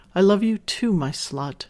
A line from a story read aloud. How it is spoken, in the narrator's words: she responds softly